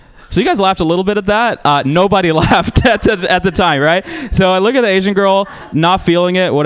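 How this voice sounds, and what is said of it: Usual voice. Nothing is said of it.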